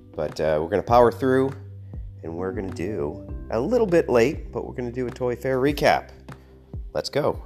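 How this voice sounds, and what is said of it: Raspy, congested voice from cold. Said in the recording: “despite this head cold... I'm a bit raspy, I'm a bit short of breath”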